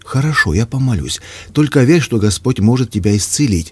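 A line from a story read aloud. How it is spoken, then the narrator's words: Mother, agitated. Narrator (Russian): взволнованно ответила мама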